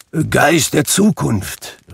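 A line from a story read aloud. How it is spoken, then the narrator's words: Called out. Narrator (German): rief er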